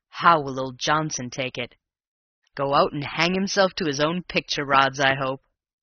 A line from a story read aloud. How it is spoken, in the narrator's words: he chuckled